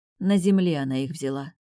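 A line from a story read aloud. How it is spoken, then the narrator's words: Dull, lifeless voice. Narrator (Russian): потухшим голосом ответила я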